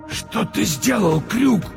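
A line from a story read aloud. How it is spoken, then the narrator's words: Wheezing rasp. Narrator (Russian): просипел Монокль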